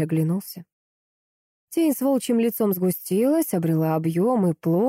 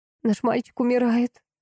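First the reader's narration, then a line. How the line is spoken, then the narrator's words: Trembling, cracked voice. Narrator (Russian): проговорила жена дрожащим сорванным голосом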